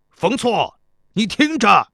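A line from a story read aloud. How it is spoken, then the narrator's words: Resigned loud shout. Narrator (Chinese): 无奈，只好对城墙上高声喊道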